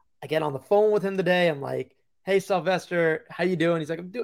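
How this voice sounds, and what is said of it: Usual voice. Nothing is said of it.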